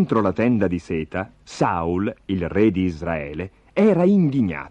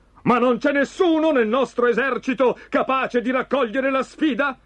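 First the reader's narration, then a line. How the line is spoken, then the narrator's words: Shouting. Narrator (Italian): gridava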